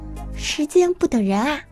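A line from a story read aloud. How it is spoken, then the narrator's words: Long sigh. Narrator (Chinese): 长叹一句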